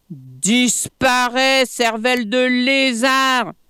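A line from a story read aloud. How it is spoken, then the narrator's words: Shouted from a treetop. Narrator (French): lui cria Plat-Museau depuis le sommet de l'arbre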